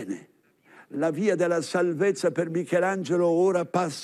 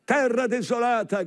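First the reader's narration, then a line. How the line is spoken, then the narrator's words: Man shouting. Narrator (Italian): grida Erasmo da Rotterdam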